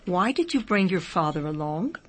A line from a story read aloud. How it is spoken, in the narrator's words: very gently the Rebbe asked